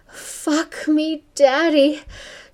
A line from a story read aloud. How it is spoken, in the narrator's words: she cried